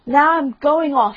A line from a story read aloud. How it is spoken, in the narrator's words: he cried